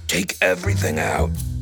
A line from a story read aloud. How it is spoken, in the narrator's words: said in a low, hoarse voice that was almost a whisper